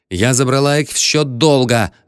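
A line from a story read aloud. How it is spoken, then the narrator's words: Snapping woman. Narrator (Russian): огрызнулась дама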